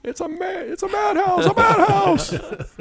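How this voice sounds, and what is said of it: High-pitched impersonation of an actor. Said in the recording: “High pitch ... nominee for best impersonation of the year”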